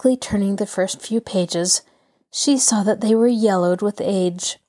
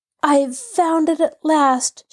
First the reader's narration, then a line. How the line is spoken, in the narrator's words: she cried